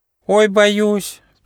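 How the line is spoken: Squeaking little mouse. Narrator (Russian): пищал мышонок Гоша

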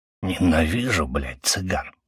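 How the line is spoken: Smoker's mutter. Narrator (Russian): пробормотал курильщик

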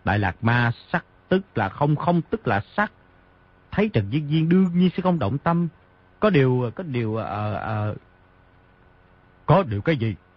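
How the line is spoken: Hurried speech. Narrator (Vietnamese): vội nói

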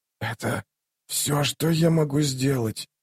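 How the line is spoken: Hoarse rasp. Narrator (Russian): прохрипела Тистая Анди

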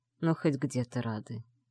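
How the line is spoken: Grumbling with heavy sigh. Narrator (Russian): буркнул Сандер и тяжело вздохнул

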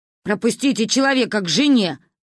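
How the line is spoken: Barked. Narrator (Russian): рявкнул водитель автобуса

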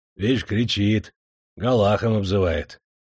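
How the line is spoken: Calm reply. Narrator (Russian): спокойно отозвался бурлак

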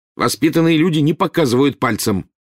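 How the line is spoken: Barking rebuke. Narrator (Russian): рявкнул Рон на крошечного первокурсника

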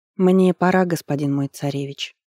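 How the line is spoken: Plain. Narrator (Russian): сказала жрица

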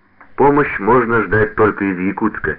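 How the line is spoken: Plain. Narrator (Russian): ответил Щербинин

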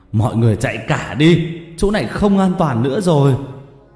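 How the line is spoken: Old man yelling. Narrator (Vietnamese): Ông gào lên

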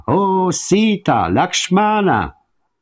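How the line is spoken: Dying roar, mimicked voice. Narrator (Romanian): răcni cu glasul lui Rama

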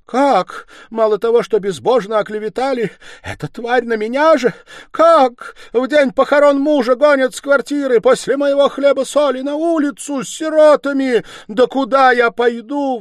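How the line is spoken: Wailing, sobbing, breathless woman. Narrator (Russian): вопила, рыдая и задыхаясь, бедная женщина

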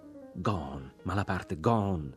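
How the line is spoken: Stammered. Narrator (Italian): balbettava

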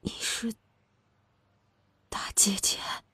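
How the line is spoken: Faint, strained after pause. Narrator (Chinese): 麻子妈呆愣了良久，声音微弱的，如同从喉咙缝里挤出来的

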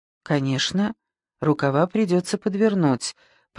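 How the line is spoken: Muttered. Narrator (Russian): пробормотал Лужбин

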